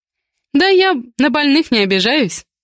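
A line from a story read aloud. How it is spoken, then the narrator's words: Wry female snort. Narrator (Russian): хмыкнула я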